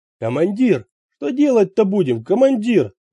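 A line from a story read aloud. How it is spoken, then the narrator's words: Yelling. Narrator (Russian): завопил Мумба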